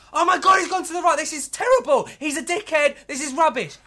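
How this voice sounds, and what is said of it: Impression of Stan Collymore, suddenly shouting. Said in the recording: “Let me do a little impression of Stan Collymore ... he'll suddenly just shout for no reason and talk over”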